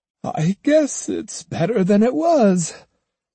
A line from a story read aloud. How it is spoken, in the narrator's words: The nun sighed and said